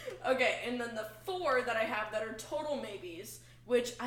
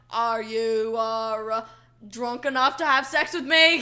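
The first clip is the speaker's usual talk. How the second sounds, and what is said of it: Exaggerated cartoon character accent. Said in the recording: “talking like JFK from Clone High. ... that is the funniest accent.”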